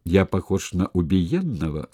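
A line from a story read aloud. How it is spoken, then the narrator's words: Plain. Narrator (Russian): спросил он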